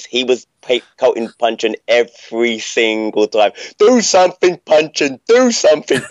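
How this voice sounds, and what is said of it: Imitates another person's voice. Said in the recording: “I really enjoyed that impression.”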